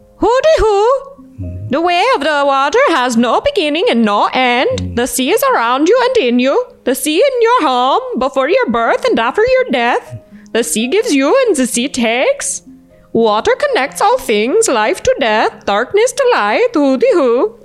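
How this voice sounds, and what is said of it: Put-on Swedish accent. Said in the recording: “try and do it with a Swedish accent ... One of the best Swedish accents”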